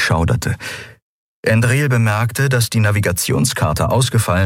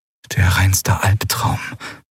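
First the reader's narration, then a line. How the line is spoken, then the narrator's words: Whisper. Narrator (German): flüsterte Lien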